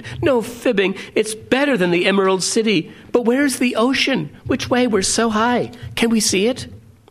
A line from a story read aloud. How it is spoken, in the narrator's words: she exclaimed